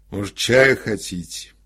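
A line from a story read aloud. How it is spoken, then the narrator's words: Sleepy, sluggish question. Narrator (Russian): Один из брюнетов, сонно и вяло спросил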